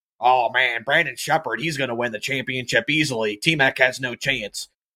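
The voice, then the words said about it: Imitates another person's voice. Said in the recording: “do my best impersonations. ... That's my Kyle McFadden one.”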